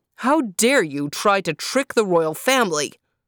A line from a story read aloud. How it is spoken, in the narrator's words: bellowed the Sun King